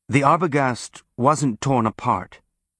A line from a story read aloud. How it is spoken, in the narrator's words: he said